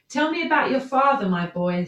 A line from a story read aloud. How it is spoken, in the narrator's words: Saul said